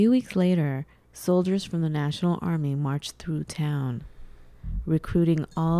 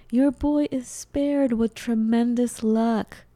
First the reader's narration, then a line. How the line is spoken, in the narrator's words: The neighbors shouted